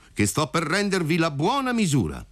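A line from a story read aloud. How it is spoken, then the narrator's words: Shouted. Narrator (Italian): gridò compar Alfio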